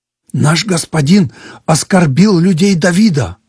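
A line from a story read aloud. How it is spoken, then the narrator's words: Agitated shepherd speaking. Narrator (Russian): взволнованно говорил пастух Авигеи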